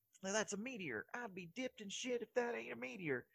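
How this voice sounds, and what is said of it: Put-on redneck American accent. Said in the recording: “Pretty good. ... I can do kind of a redneck accent pretty well.”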